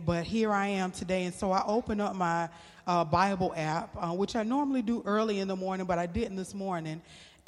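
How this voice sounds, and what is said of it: Hoarse, nearly lost voice. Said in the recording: “as you can hear, my voice is almost gone”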